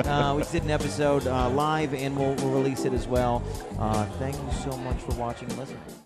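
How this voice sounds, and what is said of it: Usual voice. Nothing is said of it.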